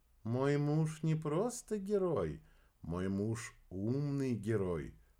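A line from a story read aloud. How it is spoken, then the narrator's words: Whispered. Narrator (Russian): прошептала Кира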